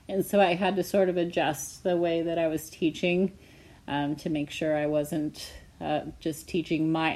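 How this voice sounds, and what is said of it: Strained voice from a voice disorder. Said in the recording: “I developed spasmodic dysphonia, which is a neurological voice disorder”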